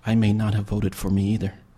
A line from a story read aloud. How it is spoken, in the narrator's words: whispered